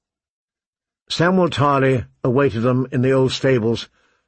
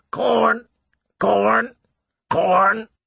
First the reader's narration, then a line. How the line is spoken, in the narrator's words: The bird shrieked